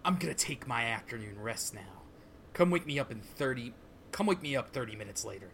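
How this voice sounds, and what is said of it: Voice of the character Valentine. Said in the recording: “your Valentine voice”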